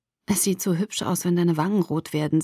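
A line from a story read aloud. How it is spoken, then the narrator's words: Soft. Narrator (German): sagte leise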